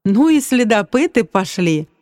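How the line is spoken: Involuntary laugh. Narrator (Russian): невольно рассмеялся я

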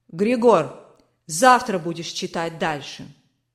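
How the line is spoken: Commanding tone. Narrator (Russian): Властным тоном сказал барон

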